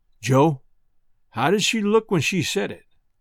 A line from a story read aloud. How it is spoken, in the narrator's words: he says to me in a thick kind of voice